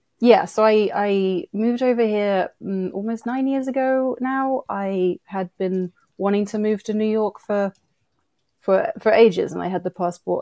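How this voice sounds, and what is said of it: British accent. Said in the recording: “I grew up in the UK, and hence the accent”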